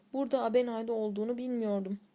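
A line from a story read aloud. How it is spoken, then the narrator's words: Plain. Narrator (Turkish): dedi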